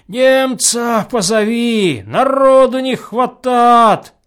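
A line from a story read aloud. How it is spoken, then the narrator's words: Hoarse shouting. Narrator (Russian): орет простуженным голосом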